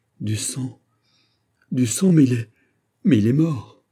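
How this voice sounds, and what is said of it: Tragic, emotion-choked cry. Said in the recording (French): “étranglée par l'émotion, s'écrie, dans un accent plus tragique que celui de la meilleure tragédienne”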